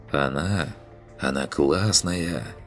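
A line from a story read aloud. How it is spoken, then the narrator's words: Sighing. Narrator (Russian): вздохнул я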